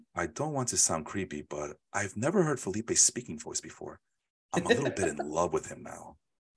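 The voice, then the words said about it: Seductive voice. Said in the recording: “said that in a seductive voice ... My voice, dulcet tones and everything.”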